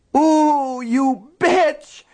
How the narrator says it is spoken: Nettie screamed

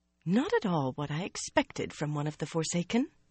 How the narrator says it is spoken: Anaya muttered only half under her breath

